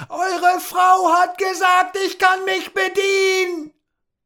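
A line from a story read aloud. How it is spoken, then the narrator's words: Bellowing at full volume. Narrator (German): brüllte Tom so laut er konnte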